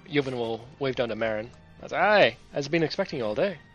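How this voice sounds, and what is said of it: Put-on Scottish accent. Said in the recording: “I picked up her accent again... You've been sucked into the Scottish.”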